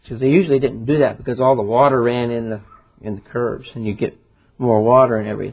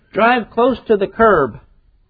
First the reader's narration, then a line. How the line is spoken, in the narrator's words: shouted to the driver